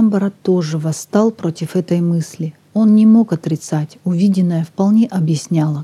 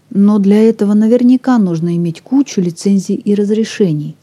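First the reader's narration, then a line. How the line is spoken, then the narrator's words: Plain. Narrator (Russian): сказала Лиза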